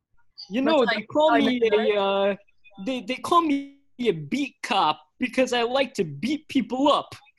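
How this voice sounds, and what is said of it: Put-on Brooklyn cop accent. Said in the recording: “Officer Dan, with that accent? Where you're from, is TV Brooklyn?”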